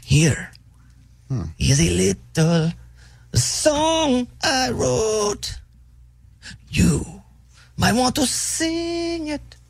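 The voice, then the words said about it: Singing in a Scarface-like accent. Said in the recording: “Singing it very interesting. ... There's an accent there. ... It's like Scarface.”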